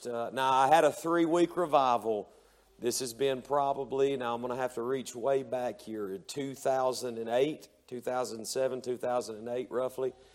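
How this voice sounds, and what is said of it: Tired, worn-out strained voice. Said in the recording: “my voice is tired ... my voice is just about shot”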